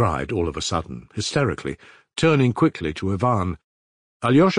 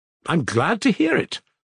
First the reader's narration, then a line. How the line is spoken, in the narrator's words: snapped out maliciously